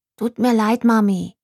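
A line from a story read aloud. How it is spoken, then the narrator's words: Plain. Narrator (German): sagte Jerry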